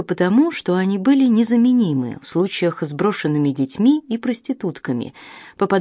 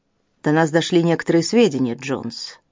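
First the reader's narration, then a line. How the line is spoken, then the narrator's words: Meek sigh. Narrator (Russian): смиренно вздохнул инспектор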